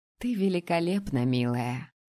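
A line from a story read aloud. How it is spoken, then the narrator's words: Tender whisper. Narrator (Russian): ласково прошептала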